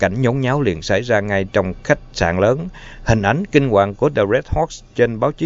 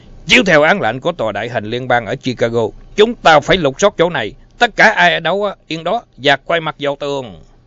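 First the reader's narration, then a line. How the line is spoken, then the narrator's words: Thunderous shouts. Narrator (Vietnamese): mấy tiếng quát nghe như sấm nổ của Ness và Malone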